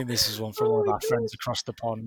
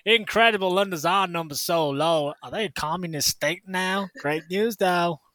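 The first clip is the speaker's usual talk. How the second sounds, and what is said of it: Put-on accent of unclear origin. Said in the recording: “I can't work out where that accent was going, but I enjoyed doing it.”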